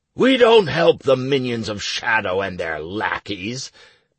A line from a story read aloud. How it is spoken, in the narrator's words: boomed the guard captain